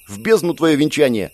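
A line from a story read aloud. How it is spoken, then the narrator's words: Snapping. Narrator (Russian): огрызнулся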